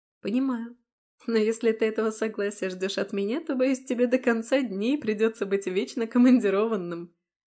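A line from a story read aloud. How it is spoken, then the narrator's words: Laughing. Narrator (Russian): засмеялась я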